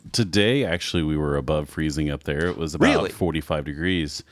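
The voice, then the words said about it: Polished radio announcer voice. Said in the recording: “he's got the best radio voice I've ever heard. It's awesome.”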